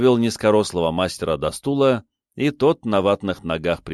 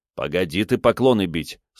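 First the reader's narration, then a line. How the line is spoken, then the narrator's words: Stern. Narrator (Russian): строго сказал я старику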